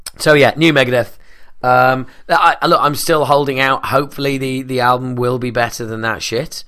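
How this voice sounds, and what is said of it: Worn-out, tired voice. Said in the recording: “how worn out my voice was”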